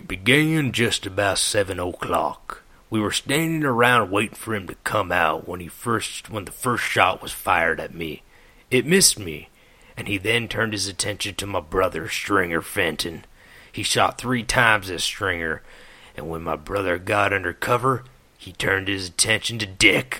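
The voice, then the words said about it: Put-on voice reading a quote. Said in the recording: “Oh, I'm going to do a little voice for this one.”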